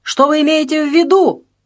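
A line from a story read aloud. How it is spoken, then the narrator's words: Nearly shouting. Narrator (Russian): Почти закричал Шердаков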